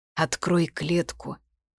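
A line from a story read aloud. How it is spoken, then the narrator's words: Hoarse. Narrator (Russian): вымолвил сипло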